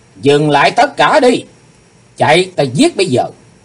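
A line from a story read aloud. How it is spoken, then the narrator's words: Sudden loud shout. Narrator (Vietnamese): Chí Tôn bỗng hét lớn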